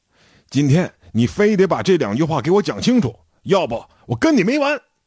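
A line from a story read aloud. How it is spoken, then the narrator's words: Shouting. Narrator (Chinese): 赵志 喊道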